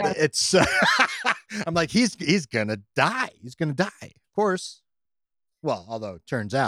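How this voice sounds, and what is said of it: Usual voice. Nothing is said of it.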